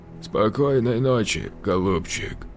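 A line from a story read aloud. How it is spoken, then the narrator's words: Hoarse rasp. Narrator (Russian): прохрипел он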